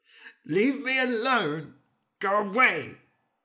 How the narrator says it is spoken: he cried

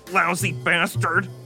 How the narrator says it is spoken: the little guy yelped

